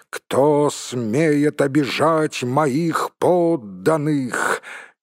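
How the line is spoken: Thunderous exclamation. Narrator (Russian): он воскликнул громовым голосом

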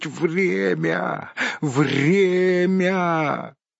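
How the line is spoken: Wheezing. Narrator (Russian): прохрипеть

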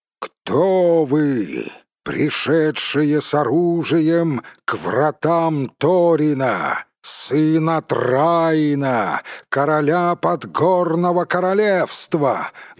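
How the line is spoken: Loud shout. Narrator (Russian): громко крикнул он

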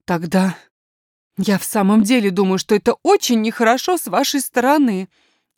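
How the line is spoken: Tearful exclamation. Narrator (Russian): воскликнула няня и снова поднесла платок к глазам

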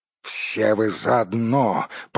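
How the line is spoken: Growl. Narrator (Russian): прорычал Торин

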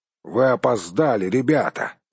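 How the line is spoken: Grumbled. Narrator (Russian): проворчал он

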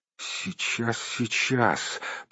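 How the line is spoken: Mumbled. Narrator (Russian): пробормотал Бильбо

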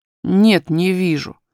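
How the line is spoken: Offended tone. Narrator (Russian): повторил Курди обиженным тоном

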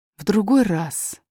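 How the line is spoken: Very gentle reply. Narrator (Russian): очень мягко ответил король

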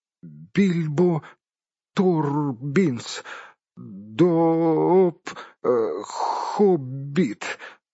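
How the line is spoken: Trembling, strained voice. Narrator (Russian): выдавил бедный господин Торбинс, дрожа как осиновый лист

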